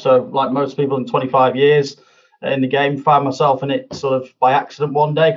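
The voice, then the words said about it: Non-Essex regional accent. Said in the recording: “you're not from Essex... No, clearly not. No, you can tell it from the accent.”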